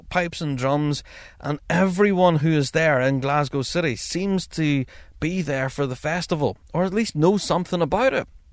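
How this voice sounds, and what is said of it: Northern Irish accent. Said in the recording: “that's not a Scottish accent. Where are you from? I says, well, I'm from Northern Ireland.”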